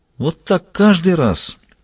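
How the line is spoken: Loud pointed sigh. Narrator (Russian): Кранц вздохнул достаточно громко, чтобы Эверт Гренс мог услышать

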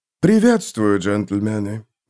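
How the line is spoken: Soft greeting. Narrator (Russian): мягко произнес прибывший

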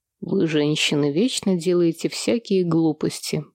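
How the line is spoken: Muttered. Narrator (Russian): пробормотал Сэм

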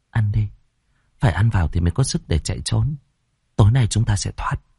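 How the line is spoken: Nervous, reassuring. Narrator (Vietnamese): Tôi khẽ nuốt nước bọt, rồi trấn an bọn nhỏ

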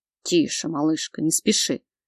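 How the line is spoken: Strained growl, clenched teeth. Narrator (Russian): Прорычал он сквозь стиснутые зубы, Богдан сдерживается с большим трудом

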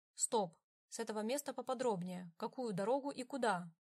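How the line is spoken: Plain. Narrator (Russian): спросил Адриан

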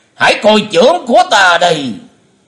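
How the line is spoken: Loud shout. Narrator (Vietnamese): Bệnh Túy thần quân quát lớn

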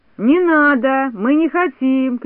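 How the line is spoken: Shouting, group. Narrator (Russian): кричали остальные

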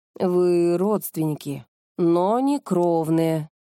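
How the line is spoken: Sepulchral, grave voice. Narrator (Russian): за могильным голосом заговорила Илона

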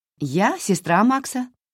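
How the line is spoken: Cheerful reply. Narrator (Russian): весело отозвалась Хлоя

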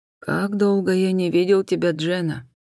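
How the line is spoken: Quiet. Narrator (Russian): тихо проговорил старший инспектор Ллойд

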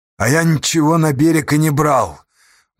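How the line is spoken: Muffled, dull answer. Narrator (Russian): глухо ответил Асташа

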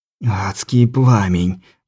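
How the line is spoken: Dry-lipped whisper. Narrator (Russian): прошептал Рамон пересохшими губами

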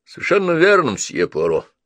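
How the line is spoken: Gloomy statement. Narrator (Russian): мрачно произнес инспектор

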